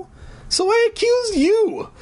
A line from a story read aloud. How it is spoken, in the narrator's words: Sarah said with a sob